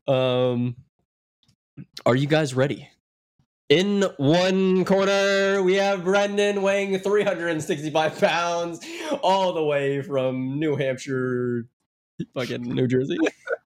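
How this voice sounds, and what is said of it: Sick voice with a cold. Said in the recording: “I'm sick ... I have a cold.”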